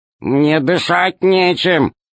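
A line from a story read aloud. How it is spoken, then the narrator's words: Grumbled. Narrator (Russian): проворчал Р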